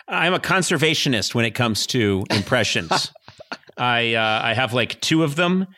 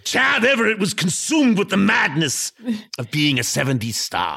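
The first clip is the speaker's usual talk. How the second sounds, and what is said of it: Arnold Schwarzenegger impression. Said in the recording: “He sounds very Schwarzenegger-esque ... my outdated Schwarzenegger impression”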